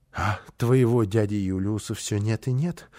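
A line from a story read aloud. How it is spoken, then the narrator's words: Sighing. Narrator (Russian): вздохнула она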